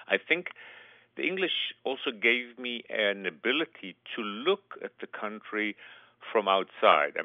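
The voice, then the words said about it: Israeli accent in English. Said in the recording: “as you can hear from my accent, I'm totally an Israeli”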